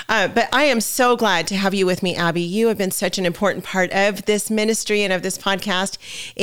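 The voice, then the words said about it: Raspy voice. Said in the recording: “you might hear that my voice sounds a little bit raspy. It's because I'm getting over this nasty head cold ... I still have this weird, you know, raspy voice.”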